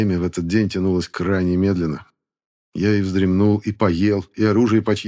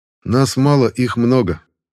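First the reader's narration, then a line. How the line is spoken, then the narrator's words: Calm explaining. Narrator (Russian): спокойно объяснила я Белозеровой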